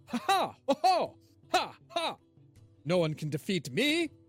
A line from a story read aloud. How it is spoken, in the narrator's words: you hear him call out loudly